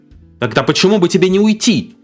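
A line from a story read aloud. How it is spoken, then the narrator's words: Shouted back. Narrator (Russian): крикнула мама в ответ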